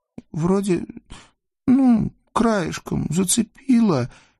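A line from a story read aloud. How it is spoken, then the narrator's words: Uncertain lie. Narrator (Russian): неуверенно соврала Ксюша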